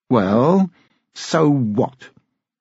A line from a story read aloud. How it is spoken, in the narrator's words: his voice was clear and strong